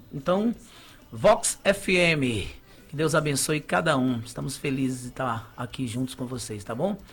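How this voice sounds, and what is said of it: Radio announcer voice. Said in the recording (Portuguese): “com voz de locutor”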